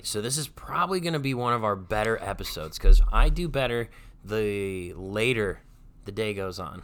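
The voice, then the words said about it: Hoarse, fading voice. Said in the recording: “I'm kind of losing my voice, so if it goes out in and out a little bit ... if I sound a little goofy”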